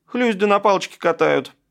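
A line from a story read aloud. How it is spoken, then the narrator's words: Snapping retort. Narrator (Russian): огрызнулся Колик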